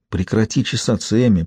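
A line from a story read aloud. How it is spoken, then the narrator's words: Whisper. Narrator (Russian): прошептала она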